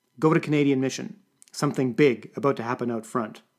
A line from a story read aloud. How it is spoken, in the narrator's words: it said